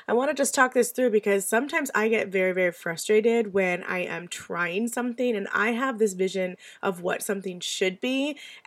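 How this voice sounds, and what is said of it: Hoarse, stuffy voice. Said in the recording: “hoarseness in my voice today? I'm stuffy too. ... Sometimes my voice goes in and out.”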